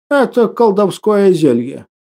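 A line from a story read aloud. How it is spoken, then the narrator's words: Plain, old man. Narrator (Russian): ответил старик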